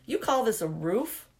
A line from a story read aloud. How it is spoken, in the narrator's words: Alice's mother snorted